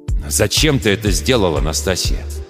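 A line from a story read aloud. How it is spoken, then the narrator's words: Serious, almost angry question. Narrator (Russian): Вдруг серьезно, почти зло спрашивает Грот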